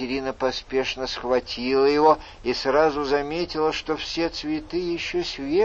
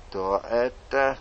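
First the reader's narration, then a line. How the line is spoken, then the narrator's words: Muttered. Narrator (Russian): пробормотала она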